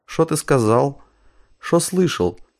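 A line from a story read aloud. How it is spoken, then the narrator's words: Peaceful tone. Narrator (Russian): тем же мирным тоном проговорил Василий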